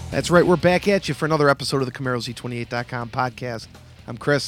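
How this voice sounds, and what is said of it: Raspy, hoarse recovering voice. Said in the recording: “I have my voice back. ... Well, sort of. You still sound like Bonnie Tyler.”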